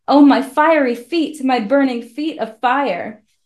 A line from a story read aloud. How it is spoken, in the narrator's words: Again and again he cried